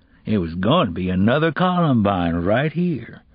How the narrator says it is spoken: the man said in his lazy drawl

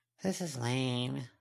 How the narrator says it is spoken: Snowdrop mumbled

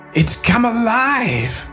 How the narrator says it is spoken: gasp

